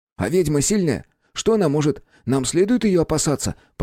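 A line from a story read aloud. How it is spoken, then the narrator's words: Rapid-fire questions. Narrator (Russian): протараторил кучу вопросов Витька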